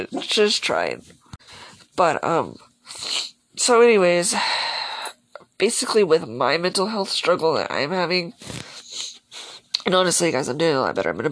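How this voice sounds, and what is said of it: Congested, sick-sounding voice. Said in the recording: “I have a cold.”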